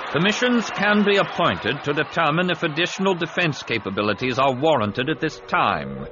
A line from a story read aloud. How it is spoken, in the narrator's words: he said sternly